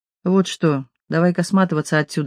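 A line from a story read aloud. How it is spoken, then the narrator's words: Plain. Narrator (Russian): сказала я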